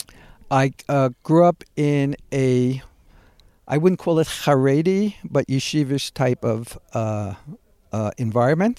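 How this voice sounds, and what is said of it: Brooklyn New York accent. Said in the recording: “I still got that Brooklyn accent.”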